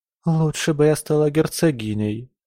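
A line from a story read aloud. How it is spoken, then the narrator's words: Sighing. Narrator (Russian): вздохнула Камилла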